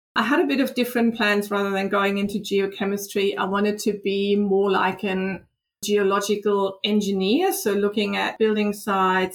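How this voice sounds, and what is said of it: Slight German accent. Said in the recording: “I from Germany, as you can probably hear, I have a bit of an accent.”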